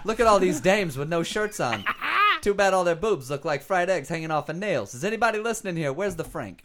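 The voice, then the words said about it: Character voice of an interpreter. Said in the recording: “That's a good deaf guy impression. ... that was the interpreter, not the deaf guy.”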